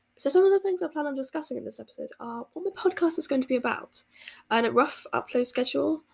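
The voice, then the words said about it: British accent. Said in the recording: “As you can probably tell from my voice, I'm actually from the UK”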